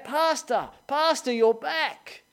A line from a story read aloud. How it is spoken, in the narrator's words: a homeless guy that called out